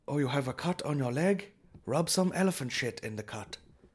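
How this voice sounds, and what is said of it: Put-on unidentified foreign accent. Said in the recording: “I don't know what accent that was.”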